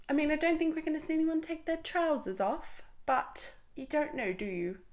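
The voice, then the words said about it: Put-on English accent. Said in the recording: “I went into an English accent then. Is it because I'm thinking the UK one?”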